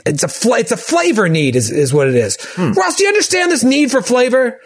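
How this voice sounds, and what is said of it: Yelling, loud voice. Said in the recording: “I'm yelling.”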